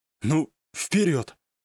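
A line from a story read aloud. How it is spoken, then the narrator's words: Exhaling. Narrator (Russian): выдохнул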